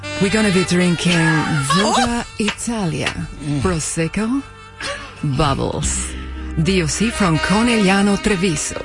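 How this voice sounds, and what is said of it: Slow, seductive accented English. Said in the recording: “Your accent, I'm in love... Now say it slow... Girl, you sound like you're on the party line.”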